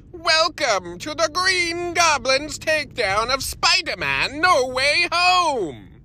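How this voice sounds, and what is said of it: Green Goblin character voice. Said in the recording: “I'm definitely not going to do the voice for the rest of that review”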